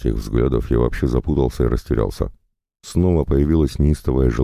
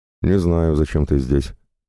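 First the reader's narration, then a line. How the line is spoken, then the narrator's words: Mocking. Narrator (Russian): насмешливо сказала Ритка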